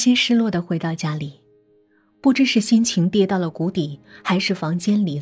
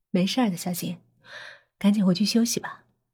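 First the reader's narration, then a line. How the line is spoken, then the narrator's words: Kind soft voice. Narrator (Chinese): 张默亲切的轻声说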